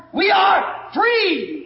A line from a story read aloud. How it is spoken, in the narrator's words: The next one hollered down